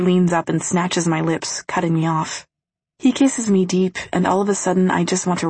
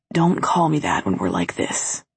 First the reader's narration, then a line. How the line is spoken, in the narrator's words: whispers against my lips